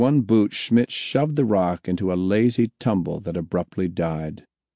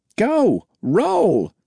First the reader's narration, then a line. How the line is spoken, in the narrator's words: he yelled